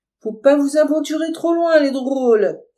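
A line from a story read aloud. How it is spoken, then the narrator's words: Slattern shouting. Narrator (French): crie la sagouine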